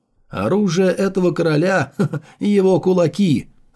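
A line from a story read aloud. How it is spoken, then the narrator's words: Fearless loud laughter. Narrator (Russian): захохотал Сунфэй, ничуть не испугавшись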